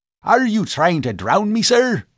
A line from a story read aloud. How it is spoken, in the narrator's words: barked the professor